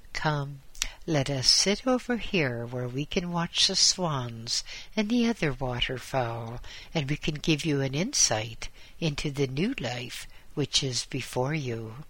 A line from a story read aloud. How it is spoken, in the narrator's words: His friend smiled gently and said